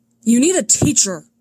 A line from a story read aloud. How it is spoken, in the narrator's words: Kylo Ren yells